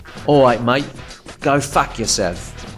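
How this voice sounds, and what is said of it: Put-on English accent. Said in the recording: “as soon as I went to swear, I slipped into an English accent”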